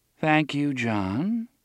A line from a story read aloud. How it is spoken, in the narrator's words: Miss Avery said in her endlessly calm voice